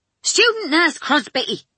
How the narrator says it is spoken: Sister snapped

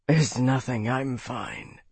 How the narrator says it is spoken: Bernard slurred, still breathing heavily

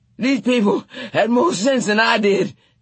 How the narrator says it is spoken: Teacake said as they dropped to the floor and lay there panting

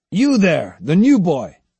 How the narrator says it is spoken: he shouted

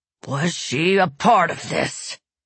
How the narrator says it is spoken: Broom growled in frustration

